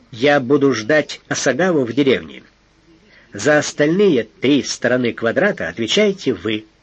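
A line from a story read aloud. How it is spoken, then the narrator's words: Plain. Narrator (Russian): сказал Фандорин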